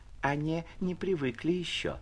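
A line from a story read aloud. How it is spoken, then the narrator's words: Timid, sweet voice. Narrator (Russian): произнесла робким и умильным голосом одна из приживалок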